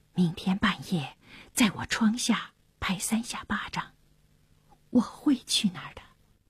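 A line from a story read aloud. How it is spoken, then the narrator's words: Whispered. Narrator (Chinese): 当那沙尔低声地说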